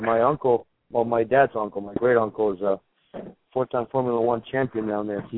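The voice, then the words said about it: Argentine-accented English. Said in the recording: “I'm sure some of you guys picked up an accent. I'm from Argentina”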